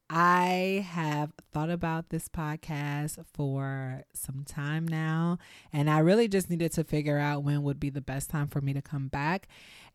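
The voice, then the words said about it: Happy, smiling voice. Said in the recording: “if you can tell in my voice, I have a very big smile on my face because I'm so happy”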